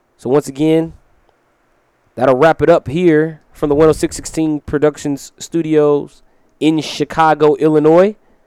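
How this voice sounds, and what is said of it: Scratchy, strained voice. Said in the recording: “my voice has been a little bit scratchy ... I got a bit of that director's voice going on”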